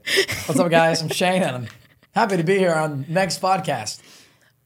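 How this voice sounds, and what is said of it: Imitates another person's voice. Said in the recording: “Is my impression of you good? ... Shane actually DMs me mocking me when I send him voice memos. Yeah. And they're actually usually on point.”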